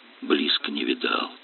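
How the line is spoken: Whispered confession. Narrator (Russian): признался шепотом Мишка

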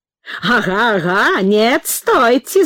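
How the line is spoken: Laughing heartily. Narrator (Russian): захохотал мистер Кук

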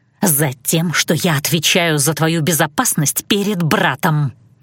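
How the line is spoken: Hissed. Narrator (Russian): Зашипела Диане

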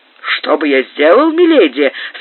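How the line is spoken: Enthusiastic exclamation. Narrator (Russian): с воодушевлением воскликнул маркиз

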